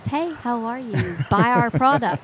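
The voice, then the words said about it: Polished commercial voiceover voice. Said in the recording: “I did voiceovers for commercials. So I can talk in a pretty voice.”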